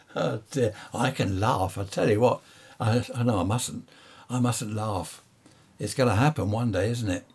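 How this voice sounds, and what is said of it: Strained, dry, fading voice. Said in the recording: “I'm losing my voice here. I've been talking too much ... I think I'm drying up”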